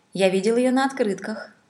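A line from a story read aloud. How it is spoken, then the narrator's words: Expressionless flat voice. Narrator (Russian): сказал господин из Сан-Франциско ничего не выражающим голосом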